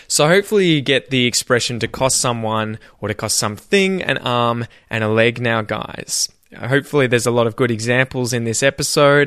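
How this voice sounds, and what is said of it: Australian accent. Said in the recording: “If you're trying to practice your Australian accent, then say things exactly as I say them.”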